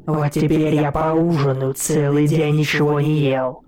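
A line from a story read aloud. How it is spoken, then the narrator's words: Growl. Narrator (Russian): прорычал гость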